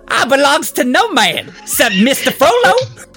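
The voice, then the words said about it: Put-on old Black American dialect. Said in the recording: “In my best old Negro dialect.”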